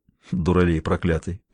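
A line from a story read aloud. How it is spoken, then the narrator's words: Muttered. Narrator (Russian): пробормотал он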